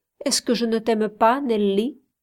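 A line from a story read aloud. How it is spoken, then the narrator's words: Plain question. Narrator (French): demanda-t-il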